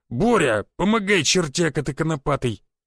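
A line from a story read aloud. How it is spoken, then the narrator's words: Growling shout. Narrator (Russian): Рычал впереди усатый и плечистый полицейский, обращаясь к худощавому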